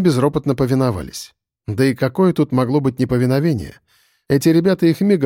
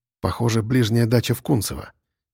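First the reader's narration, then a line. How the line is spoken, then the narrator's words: Quiet, satisfied. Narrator (Russian): негромко, но очень удовлетворенно сказал Егор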